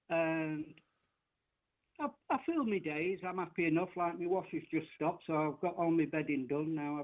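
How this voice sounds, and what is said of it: Yorkshire English accent. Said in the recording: “I was a Yorkshire guy ... Did they not like your accent? ... I kind of like the English accent.”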